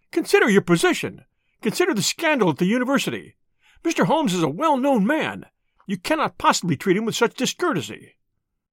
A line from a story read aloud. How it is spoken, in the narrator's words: he cried